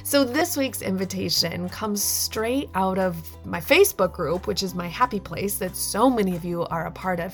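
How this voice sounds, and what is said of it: Funny-sounding voice, lingering cold. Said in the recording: “If my voice still sounds funny ... It's because I'm holding on to this cold a little bit longer ... So if you hear it in my voice”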